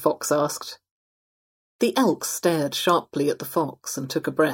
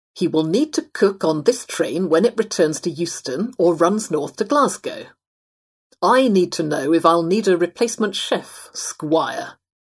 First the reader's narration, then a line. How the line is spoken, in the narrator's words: he snarled sarcastically to the fox